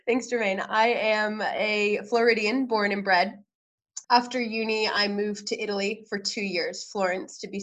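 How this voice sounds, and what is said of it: American accent. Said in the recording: “you don't have an Australian accent ... with an American sounding accent? I might be wrong.”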